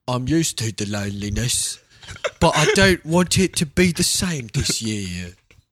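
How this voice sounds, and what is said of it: Deliberately bad fake English accent. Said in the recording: “You had to say it in a British accent. ... I still do a terrible fake English accent”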